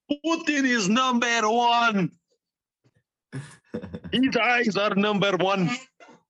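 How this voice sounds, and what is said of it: Put-on Russian accent. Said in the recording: “I will do entire show in Russian accent.”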